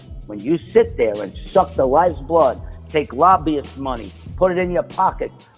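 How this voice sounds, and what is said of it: Strong New York accent. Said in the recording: “that New York accent is starting to kick in into high gear”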